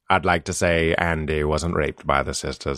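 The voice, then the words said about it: Morgan Freeman impression. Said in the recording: “I do Morgan Freeman. Anybody can do it.”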